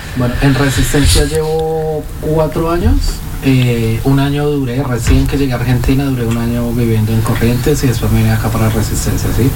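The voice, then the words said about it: Colombian Spanish accent. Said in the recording (Spanish): “sos colombiano, tu tono, tu acento”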